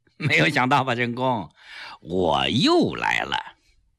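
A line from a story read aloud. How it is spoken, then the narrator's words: Calm, smiling. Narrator (Chinese): 蔡增基一笑，很坦然地说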